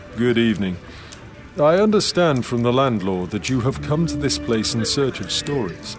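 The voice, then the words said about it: Refined voice, no Scottish accent. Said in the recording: “He spoke in a refined voice that held no hint of Scots.”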